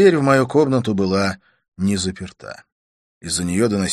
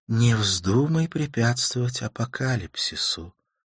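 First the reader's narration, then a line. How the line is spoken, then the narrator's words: Whisper. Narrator (Russian): прошептала она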